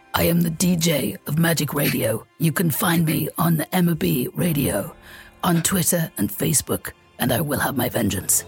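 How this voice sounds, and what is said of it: Imitates a film actor's voice. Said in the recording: “as Russell Crowe from Gladiator ... your Russell Crowe impression”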